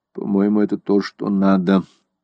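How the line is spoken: Mutter. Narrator (Russian): пробормотал Деннисон

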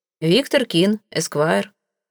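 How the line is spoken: Dry introduction. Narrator (Russian): отрекомендовался я сухо

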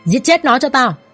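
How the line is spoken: Loud shouted command. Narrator (Vietnamese): tên mặt sẹo hắn quát lớn ra lệnh

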